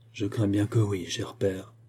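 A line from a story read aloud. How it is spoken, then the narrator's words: Low murmur. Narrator (French): murmura-t-elle à voix basse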